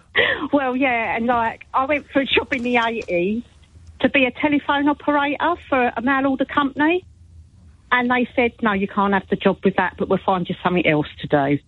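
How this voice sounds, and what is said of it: South London accent, Essex-sounding. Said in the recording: “my accent. People think I'm from Essex. ... I'm from South London.”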